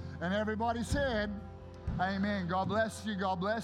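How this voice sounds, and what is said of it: Usual voice. Nothing is said of it.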